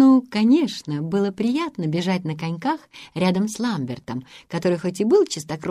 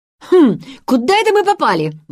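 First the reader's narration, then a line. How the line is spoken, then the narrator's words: Exclaimed. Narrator (Russian): воскликнул Ламберт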